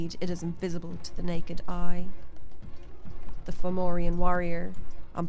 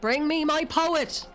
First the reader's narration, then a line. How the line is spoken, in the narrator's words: Indek shouts at no one in particular